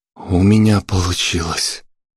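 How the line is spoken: Breathless exhale. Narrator (Russian): выдохнул он

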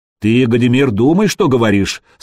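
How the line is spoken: Stern. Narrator (Russian): строго произнес Рерих

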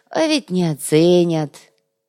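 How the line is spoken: Sad sigh. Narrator (Russian): печально вздохнул Зиль

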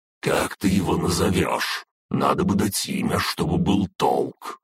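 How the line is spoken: Serious. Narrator (Russian): серьезным голосом проговорила Фая

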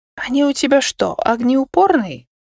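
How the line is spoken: Quiet question. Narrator (Russian): тихо спросила

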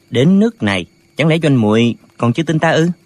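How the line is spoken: Soft, gentle. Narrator (Vietnamese): Lệnh Hồ Xung nhỏ nhẹ nói

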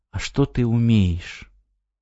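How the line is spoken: Sighing question. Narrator (Russian): Она вздохнула и спросила

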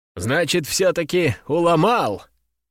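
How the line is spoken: Approving snort. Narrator (Russian): Петр хмыкнул, и в его глазах блеснуло одобрение

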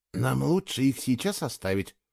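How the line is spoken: Whisper. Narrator (Russian): шепотом сказал Фло

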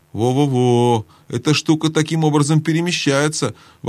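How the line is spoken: Exclaimed. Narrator (Russian): воскликнул Каспиан

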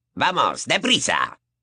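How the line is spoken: Gruff growl. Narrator (Spanish): gruñó Moody

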